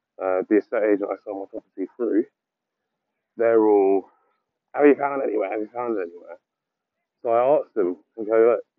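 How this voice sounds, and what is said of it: Croaky, hoarse voice. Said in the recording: “I don't know why my voice is croaking”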